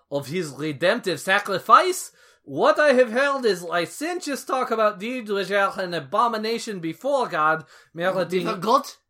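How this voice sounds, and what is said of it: Thick put-on French accent. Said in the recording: “Calvin comes back speaking in a thick French accent, which I forgot when I gave him a Dutch accent just now.”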